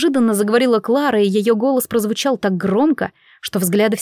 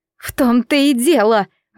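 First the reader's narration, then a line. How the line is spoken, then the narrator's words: Indignant exclamation. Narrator (Russian): возмущенно воскликнула женщина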